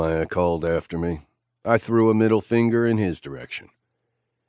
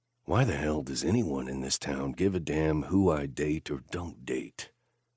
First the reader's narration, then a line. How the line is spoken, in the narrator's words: I muttered to myself